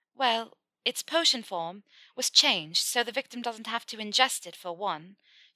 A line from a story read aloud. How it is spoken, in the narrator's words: she exclaimed